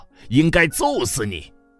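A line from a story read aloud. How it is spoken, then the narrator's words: Group shouting. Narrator (Chinese): 他们对他嚷道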